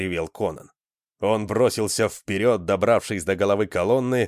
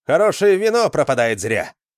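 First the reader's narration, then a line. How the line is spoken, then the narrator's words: Cheerful shout. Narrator (Russian): весело крикнул Джаренс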